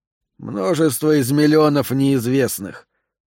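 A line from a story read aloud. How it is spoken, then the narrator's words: Sigh. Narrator (Russian): вздохнул Джентри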